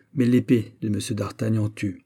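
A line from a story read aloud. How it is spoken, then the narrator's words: Cold reply. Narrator (French): répliqua froidement Raoul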